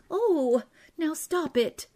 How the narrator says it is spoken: she cried

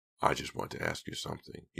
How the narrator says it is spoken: he said quietly

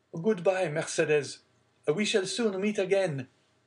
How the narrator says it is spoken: he called out

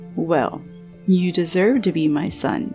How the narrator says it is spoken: he said

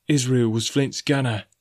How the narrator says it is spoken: said Grey hoarsely

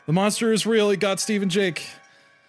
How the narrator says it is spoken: Josh yelled

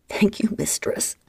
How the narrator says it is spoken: Michael managed to gasp through the haze of pain

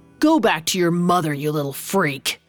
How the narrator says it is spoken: Santiago growled

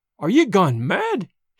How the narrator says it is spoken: he cried

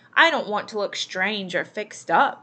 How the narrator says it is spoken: she said

